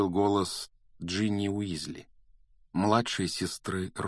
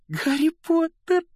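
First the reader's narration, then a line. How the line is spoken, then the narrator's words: Squeaky voice. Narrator (Russian): пропищала Джинни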